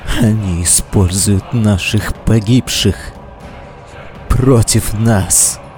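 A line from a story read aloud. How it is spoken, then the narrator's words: Hoarse rasp. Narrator (Russian): прохрипел он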